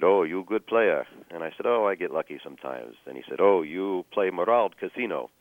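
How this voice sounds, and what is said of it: Attempted Ukrainian accent, sounds Russian. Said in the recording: “Sorry about the attempt at Ukrainian accent ... I thought it was Russian ... I did the accent wrong the first time”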